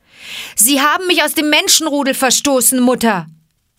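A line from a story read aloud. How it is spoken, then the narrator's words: Called out. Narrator (German): rief Mowgli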